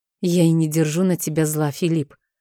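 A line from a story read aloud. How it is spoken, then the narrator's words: Affectionate, gentle. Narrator (Russian): ответила ласково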